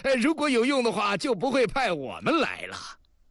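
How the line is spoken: Man laughing. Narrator (Chinese): 那汉子笑了

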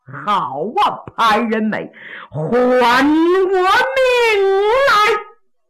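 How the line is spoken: Loud shout. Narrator (Chinese): 杨七郎虎目圆睁，高声喊呐

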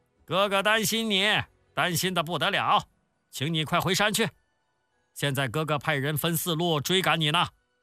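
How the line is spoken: Calling out. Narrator (Chinese): 石谦向李逵叫道

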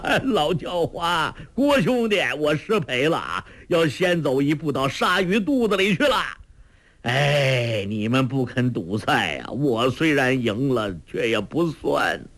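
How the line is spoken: Pained laughing shout. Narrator (Chinese): 周伯通中了黄药师的掌力…胸口又剧痛起来，他大笑着叫道

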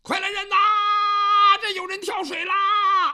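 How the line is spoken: Urgent shout. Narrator (Chinese): 展雄飞赶忙的就喊

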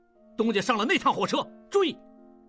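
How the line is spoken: Urgent shout. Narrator (Chinese): 王宗宇大喊

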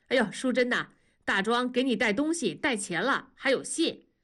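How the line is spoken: Warm excited call. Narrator (Chinese): 同志是万分的热情，喊道

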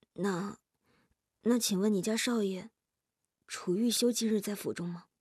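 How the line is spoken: Hesitant low question. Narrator (Chinese): 夜莺 调整自己的呼吸，良久之后才低声地问道

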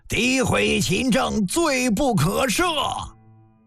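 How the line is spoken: Indignant collective roar. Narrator (Chinese): 大臣们义愤填膺，齐齐吼了一声

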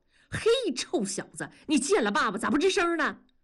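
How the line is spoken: Shouting. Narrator (Chinese): 大庄却冲着儿子嚷嚷着

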